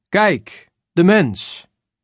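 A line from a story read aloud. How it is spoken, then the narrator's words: Called out. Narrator (Dutch): roept Pilatus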